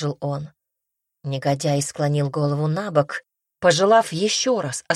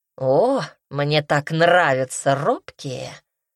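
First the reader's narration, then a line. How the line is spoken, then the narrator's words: Drawling. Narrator (Russian): Протянул он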